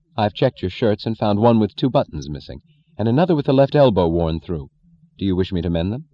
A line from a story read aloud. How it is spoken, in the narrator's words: said dryly, efficiently, in deliberate denial